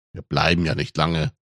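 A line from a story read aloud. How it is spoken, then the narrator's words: Murmured. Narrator (German): murmelte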